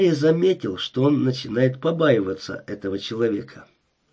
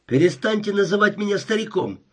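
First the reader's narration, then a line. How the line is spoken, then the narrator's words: Sharp. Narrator (Russian): резко сказал он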